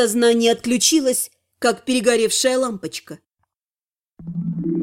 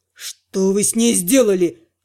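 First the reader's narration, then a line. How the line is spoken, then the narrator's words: Growl. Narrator (Russian): рыкнул он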